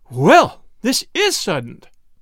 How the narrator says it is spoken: exclaimed Mrs

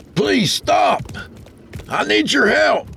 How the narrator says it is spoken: he hollered as he approached the wagon

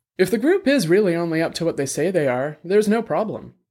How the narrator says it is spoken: Dex said

